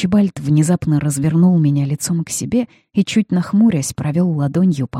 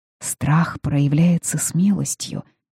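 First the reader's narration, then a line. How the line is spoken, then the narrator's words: Whisper. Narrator (Russian): прошептала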